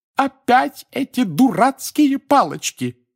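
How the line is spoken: Shouting woman. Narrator (Russian): закричала миссис Уизли

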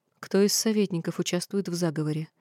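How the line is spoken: Calm questioning. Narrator (Russian): Я задавала вопросы спокойно

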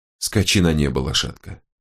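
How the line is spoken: Soft. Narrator (Russian): негромко проговорил он

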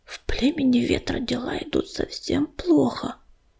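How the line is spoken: Whispered in ear. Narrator (Russian): прошептала на ухе Листочке Мотылинка

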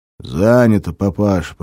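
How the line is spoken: Booming. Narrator (Russian): прогудел один

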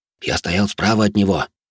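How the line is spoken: Excited whisper, bearded man. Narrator (Russian): возбужденным шепотом говорил тощий бородатый мужик

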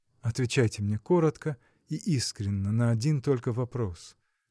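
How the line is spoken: Began in an undertone. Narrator (Russian): начал он вполголоса

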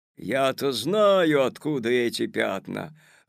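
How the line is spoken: Sudden menacing shout. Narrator (Russian): вдруг грозно закричал дядя Федя

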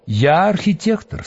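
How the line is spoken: Calm golem. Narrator (Russian): спокойно сказал голем

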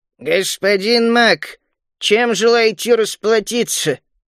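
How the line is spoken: Creaky old voice. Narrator (Russian): старик проскрипел

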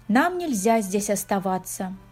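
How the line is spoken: Sighing. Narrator (Russian): вздохнул он

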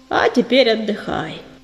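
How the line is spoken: Gentle purr. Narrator (Russian): проурчал Львиногриф, ласково

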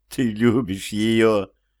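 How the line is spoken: Sobbing. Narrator (Russian): повторяет она, всхлипывая

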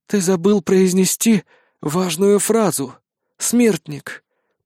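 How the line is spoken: Hoarse rasp. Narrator (Russian): прохрипела графиня

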